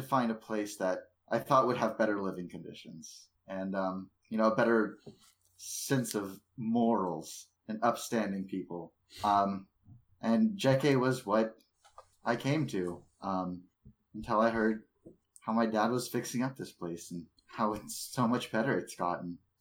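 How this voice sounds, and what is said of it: Speaks in a character voice. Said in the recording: “This isn't even my voice. ... Vincent character voice.”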